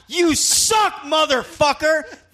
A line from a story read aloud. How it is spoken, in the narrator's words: shouted